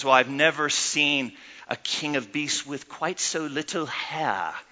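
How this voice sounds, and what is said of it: Condescending put-on British accent. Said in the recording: “If you want to be condescending, use a real awesome British accent.”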